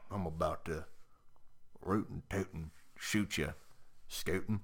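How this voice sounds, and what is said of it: Bad put-on cowboy accent. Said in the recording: “You have a really, really awful cowboy accent.”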